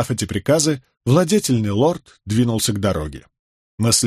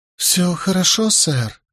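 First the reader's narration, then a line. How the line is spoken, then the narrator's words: Timid bleating. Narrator (Russian): робко проблеял он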